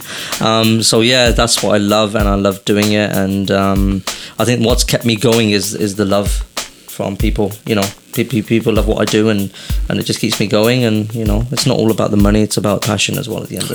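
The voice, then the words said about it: British accent. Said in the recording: “he does speak with a funny accent. He is originally from the UK.”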